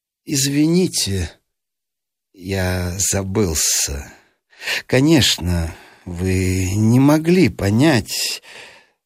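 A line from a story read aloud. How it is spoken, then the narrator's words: Calm despite hurt. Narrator (Russian): видимо, задетый за живое, но ответил спокойно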